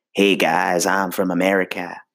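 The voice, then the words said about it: Weak put-on American accent. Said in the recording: “my American accent isn't so great ... not so great”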